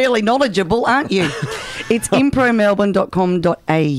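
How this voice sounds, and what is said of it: Usual voice. Nothing is said of it.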